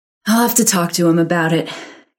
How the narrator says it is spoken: Karen sighed, as if she didn't have enough to do

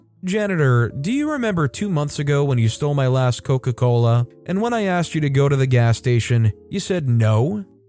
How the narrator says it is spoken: My father, in the calmest voice ever, goes

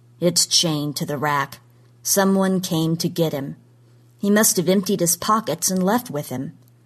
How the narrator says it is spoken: said flatly

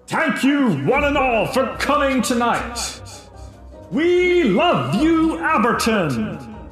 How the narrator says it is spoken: the professor's voice booming

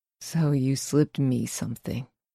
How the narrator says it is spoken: he mutters

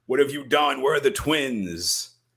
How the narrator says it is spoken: mother screams

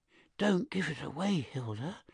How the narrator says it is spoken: whispered

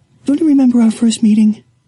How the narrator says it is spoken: Lewis sighed

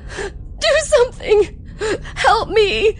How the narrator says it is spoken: Butch, still strapped in tightly, cried out

